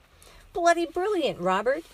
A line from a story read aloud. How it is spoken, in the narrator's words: Frank shouted